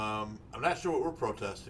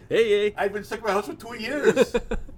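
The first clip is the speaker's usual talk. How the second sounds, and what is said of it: Bad put-on Canadian accent. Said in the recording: “That's a bad Canadian accent”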